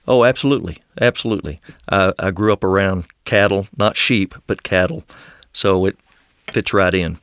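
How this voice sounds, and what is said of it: West Texan Southern accent. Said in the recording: “your accent ... it does seem to be disturbing the dairy cattle just a little ... I would describe my accent as West Texan ... largely Southern”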